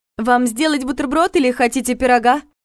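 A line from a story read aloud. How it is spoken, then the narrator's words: Loud question. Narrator (Russian): громко спросила она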